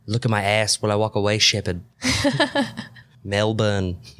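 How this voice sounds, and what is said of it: Put-on weak Australian accent. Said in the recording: “Your Australian accent improved. ... That's better than your usual. ... it's always been weak ... Speaking with an Australian accent.”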